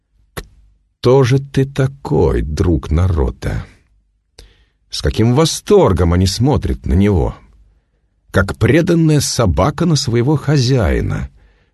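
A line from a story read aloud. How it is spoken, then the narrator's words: Through gritted teeth. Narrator (Russian): сквозь зубы процедил провидец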